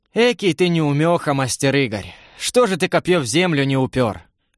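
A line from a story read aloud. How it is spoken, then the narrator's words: Soft question. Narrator (Russian): мягко спросил Семен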